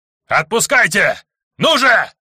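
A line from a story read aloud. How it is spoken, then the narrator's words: Yelling. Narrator (Russian): орал главный сектант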